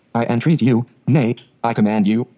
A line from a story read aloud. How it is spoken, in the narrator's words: says he